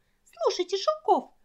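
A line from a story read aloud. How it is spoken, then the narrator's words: Determined squeak. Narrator (Russian): решительно запищала Сонечка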